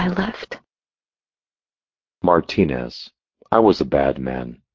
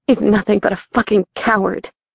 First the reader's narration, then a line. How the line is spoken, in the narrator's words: my voice breaking, my body shaking